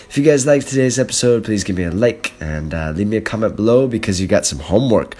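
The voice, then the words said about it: Sick-sounding voice. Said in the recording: “Sorry for my voice today. I'm I'm sick this morning.”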